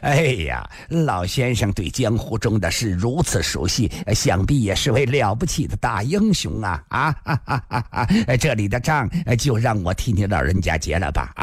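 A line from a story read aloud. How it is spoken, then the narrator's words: Laughing. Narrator (Chinese): 孙驼子 忍不住笑了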